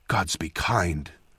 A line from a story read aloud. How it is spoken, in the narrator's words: Kedal muttered